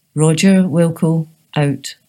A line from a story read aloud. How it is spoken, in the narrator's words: said Will